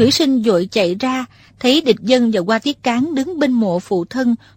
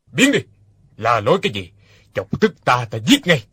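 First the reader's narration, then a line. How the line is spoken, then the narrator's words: Angry barking. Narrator (Vietnamese): Hoa Thiết Cán quát lên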